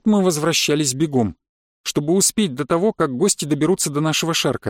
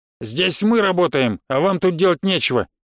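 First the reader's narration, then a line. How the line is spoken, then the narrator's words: Rude answer, gang leader. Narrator (Russian): грубо ответил главарь конкурентов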